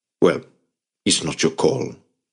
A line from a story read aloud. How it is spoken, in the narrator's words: Otto said firmly